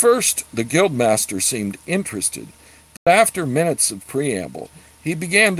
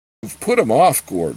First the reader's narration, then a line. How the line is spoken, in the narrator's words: murmured with his flagon held before his mouth